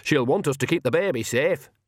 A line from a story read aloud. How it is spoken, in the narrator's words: added loudly